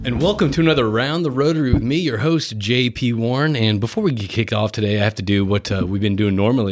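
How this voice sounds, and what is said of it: Usual voice. Nothing is said of it.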